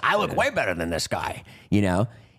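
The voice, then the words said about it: Imitates another person's voice. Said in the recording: “it's a good impression.”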